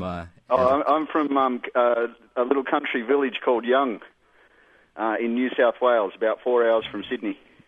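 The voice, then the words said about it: Australian accent with intense vowels. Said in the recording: “I'm genuine Aussie ... you've got those intense vowels”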